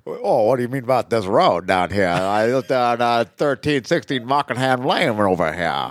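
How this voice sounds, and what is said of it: Fred Gwynne impression. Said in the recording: “Our boy, Fred Gwynn. ... Where's your impression,”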